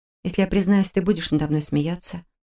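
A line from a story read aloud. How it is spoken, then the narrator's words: Embarrassed mumble. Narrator (Russian): Смутившись, пробормотала я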